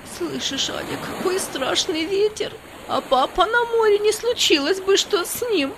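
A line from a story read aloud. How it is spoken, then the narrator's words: Sobbing. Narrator (Russian): Она зарыдала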